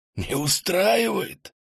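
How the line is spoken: Whispered shout. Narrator (Russian): крикнул он шепотом

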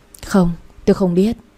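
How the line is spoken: Sighing reply. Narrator (Vietnamese): tôi thở dài đáp

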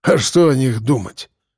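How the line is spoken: Scoffing snort. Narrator (Russian): хмыкнул Мордюков

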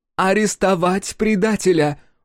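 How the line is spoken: Shouted out. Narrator (Russian): выкрикнула Джиа

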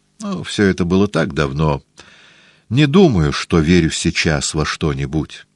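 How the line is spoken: Doctor sighing. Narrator (Russian): вздохнул доктор

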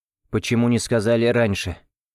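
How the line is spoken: Cold question. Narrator (Russian): холодно спросил я

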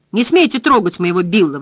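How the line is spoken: Screaming. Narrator (Russian): вопит миссис Ральф

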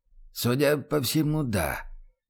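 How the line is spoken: Quiet reply. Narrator (Russian): тихо отозвался Арнье Дивар

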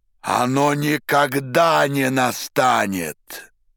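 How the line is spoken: Sudden terrifying shout. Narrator (Russian): Вдруг закричал Пилат таким страшным голосом

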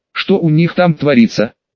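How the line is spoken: Angry mutter. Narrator (Russian): зло пробормотала Лиза

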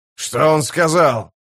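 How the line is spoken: Captain barking. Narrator (Russian): рявкнул капитан

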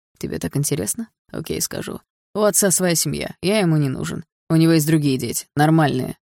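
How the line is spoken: Dull, muffled. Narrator (Russian): глухо ответил Барс

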